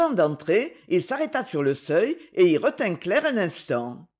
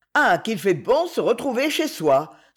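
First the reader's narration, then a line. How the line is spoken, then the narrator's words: Exclaimed. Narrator (French): s'écria-t-il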